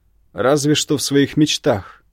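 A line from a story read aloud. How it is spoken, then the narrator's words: Barked reply. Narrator (Russian): рявкнул в ответ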